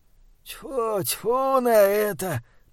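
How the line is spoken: Groaning. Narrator (Russian): простонал Джон

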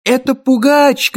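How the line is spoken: Shout. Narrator (Russian): крикнул я

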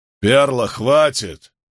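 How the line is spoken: Leader barking. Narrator (Russian): рявкнул главарь

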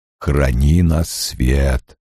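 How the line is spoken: Deep buzzing whisper. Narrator (Russian): прогудел гигантским шмелем шепот Лойла

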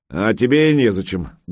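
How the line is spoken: Curt, rough. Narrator (Russian): грубо отрезал новый Санькин тренер

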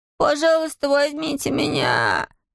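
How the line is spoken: Growling plea. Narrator (Russian): взмолился он своим рычащим голосом

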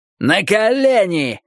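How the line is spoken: Two guards yelling. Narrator (Russian): заорали оба стража

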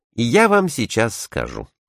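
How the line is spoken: Calm. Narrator (Russian): спокойно отвечал Барбикин

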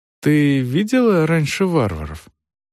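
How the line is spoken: Gentle, caring question. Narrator (Russian): Дорс мягко, заботливо спросила

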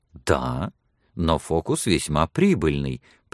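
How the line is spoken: Cheerful interruption. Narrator (Russian): прервала миссис Мортимер, и ее живые глаза весело сверкнули за очками

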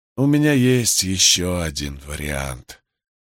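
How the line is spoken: Muffled voice. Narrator (Russian): глухо произнес Джонстон

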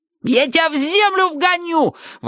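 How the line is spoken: Yelling. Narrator (Russian): вопил тогда Джонни О

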